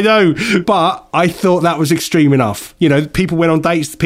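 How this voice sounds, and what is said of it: Usual voice. Nothing is said of it.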